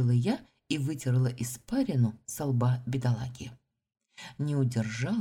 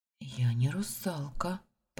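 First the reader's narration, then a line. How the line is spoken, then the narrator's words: Whisper. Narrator (Russian): прошептала я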